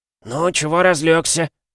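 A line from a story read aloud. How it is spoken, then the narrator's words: Hoarse, from above. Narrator (Russian): прохрипел сверху кто-то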